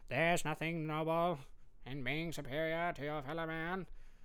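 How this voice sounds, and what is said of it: JFK impression. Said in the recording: “I could hear like JFK saying something like that.”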